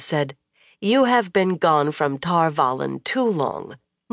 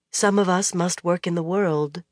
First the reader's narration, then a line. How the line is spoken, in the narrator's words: Moiraine said gently